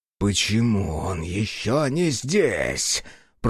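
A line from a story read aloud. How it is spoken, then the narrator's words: Growled. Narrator (Russian): прорычал второй протектор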